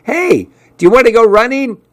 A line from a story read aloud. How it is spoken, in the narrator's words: he yelled out at me